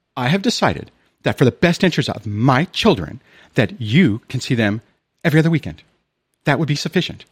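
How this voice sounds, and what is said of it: Sarcastic, prim mocking impression. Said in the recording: “I sound like I'm being sarcastic, but I mean, that's what she used to do. Perfect posture.”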